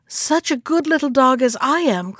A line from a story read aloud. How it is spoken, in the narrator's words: cried Tintin